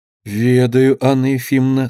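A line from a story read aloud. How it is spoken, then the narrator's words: Timid. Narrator (Russian): сказала робко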